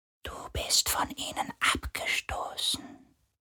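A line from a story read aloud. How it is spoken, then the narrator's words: Whispering sea spirit. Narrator (German): flüsterte der Geist des Meeres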